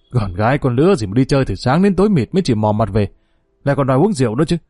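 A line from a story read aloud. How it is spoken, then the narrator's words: Grumbling. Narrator (Vietnamese): Lão Ngọc Hoàng càu nhàu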